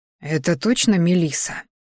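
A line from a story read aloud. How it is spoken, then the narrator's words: Confused whisper. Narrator (Russian): услышал шепоток друга, который, как и я, пребывал сейчас в полной растерянности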